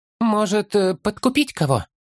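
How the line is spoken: Hesitant suggestion. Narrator (Russian): Неуверенно предложил Хоббит

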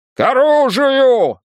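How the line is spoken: Shouted. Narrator (Russian): закричал кто-то

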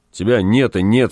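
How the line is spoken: Angry. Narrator (Russian): сказал он, сердито

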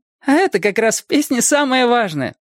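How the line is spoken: Laughing. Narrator (Russian): засмеялась она

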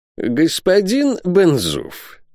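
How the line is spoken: Ingratiating tone. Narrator (Russian): начал он самым вкрадчивым тоном

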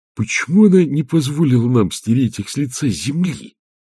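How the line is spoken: Angry whisper. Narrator (Russian): зло прошептал Петр на ухо Агнессе

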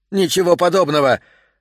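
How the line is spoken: Offended loud wail. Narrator (Russian): обиженно завопил Морт на весь дом

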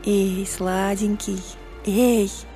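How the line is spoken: Whisper. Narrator (Russian): прошептала она

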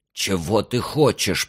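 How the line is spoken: Hiss. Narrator (Russian): прошипел тот

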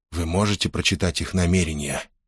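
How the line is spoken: Whisper. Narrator (Russian): шепнул Гордон Корханну

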